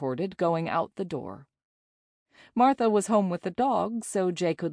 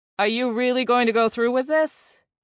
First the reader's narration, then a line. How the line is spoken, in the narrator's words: demanded in a loud voice